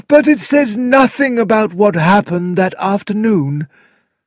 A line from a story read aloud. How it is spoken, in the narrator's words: said the coroner with a sigh